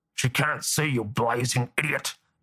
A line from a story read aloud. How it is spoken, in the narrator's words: the old warden hissed